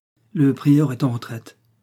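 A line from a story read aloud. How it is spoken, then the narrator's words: Plain. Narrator (French): dit la nourrice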